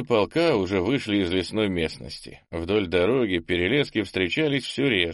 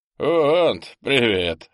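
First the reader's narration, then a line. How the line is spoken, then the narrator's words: Short laugh. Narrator (Russian): хохотнул Бельс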